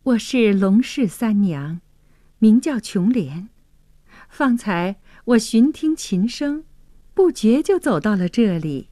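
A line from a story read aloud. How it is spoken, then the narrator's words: Shy smile. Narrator (Chinese): 琼莲羞涩的一笑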